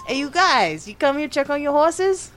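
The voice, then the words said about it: Character voice with New York accent. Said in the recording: “that New York accent kid”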